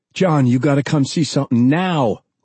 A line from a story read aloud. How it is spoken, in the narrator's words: Paul cried, features alight with a broad grin